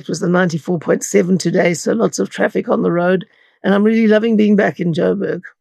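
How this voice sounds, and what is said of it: Slightly raspy throat. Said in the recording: “My throat's a bit raspy.”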